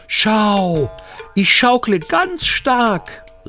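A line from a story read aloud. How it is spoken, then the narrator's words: Little bear calling out. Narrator (German): rief der kleine Bär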